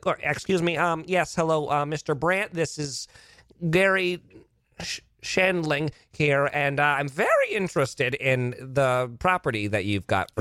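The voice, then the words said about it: Nerdy put-on voice. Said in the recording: “I'll do like that nerd voice to him”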